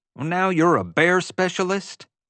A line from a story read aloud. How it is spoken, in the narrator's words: JJ asked testily